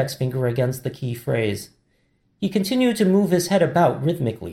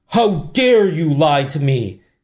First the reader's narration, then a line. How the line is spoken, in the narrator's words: Yi shouted